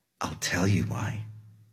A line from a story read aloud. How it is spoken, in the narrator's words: said in a low voice